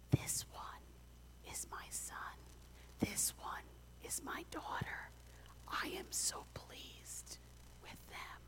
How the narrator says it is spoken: God smiles and then whispers

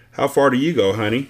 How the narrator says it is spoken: I asked

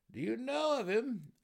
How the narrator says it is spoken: Several of the Surf Neblin cried together

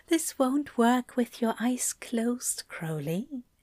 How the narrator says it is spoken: Aziraphale whispered right into his ear, and that definitely sounded like teasing

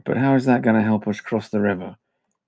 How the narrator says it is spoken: Cyril sighed

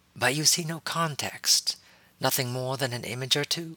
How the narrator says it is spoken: Shaktai asked, her voice calm and without judgment

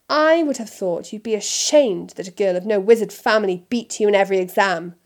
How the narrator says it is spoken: snapped Mr

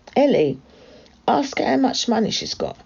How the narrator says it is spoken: shouted the girl

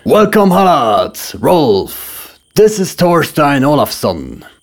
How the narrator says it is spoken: Jarl Sigurf thundered

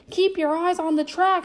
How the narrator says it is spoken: shouted Uncle Donald

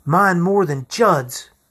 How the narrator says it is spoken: I said hotly

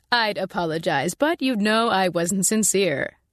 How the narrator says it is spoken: Marsh said, and I thought he was close to laughing

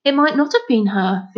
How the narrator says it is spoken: Finn said eagerly

